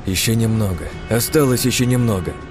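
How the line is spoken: Weary, heavy sigh. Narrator (Russian): Я тяжело вздохнул, и произнес

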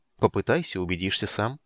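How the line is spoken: Calm. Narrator (Russian): предложил маг спокойно

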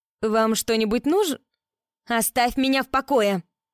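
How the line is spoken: Barking like angry teen. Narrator (Russian): гаркнула Эллисон, снова став похожей на того злобного подростка

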